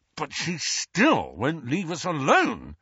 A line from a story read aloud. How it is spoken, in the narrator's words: snarled Ron